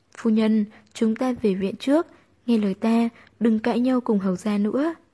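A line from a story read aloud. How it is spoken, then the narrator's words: Frightened, hurried pleading. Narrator (Vietnamese): Phương Mụ Mụ sợ hãi cuống quýt gật đầu, kéo tay Tư Nhược Nam nói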